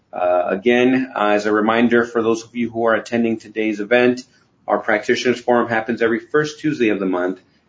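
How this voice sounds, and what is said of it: Sick, cold-affected voice. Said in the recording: “Please forgive my very wide impression. I'm just getting over a cold”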